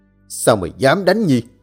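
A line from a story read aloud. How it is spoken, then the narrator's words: Hissed through clenched teeth. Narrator (Vietnamese): nghiến răng rít lên từng chữ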